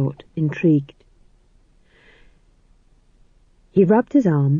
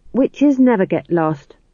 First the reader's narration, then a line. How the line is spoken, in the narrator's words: said McGrath firmly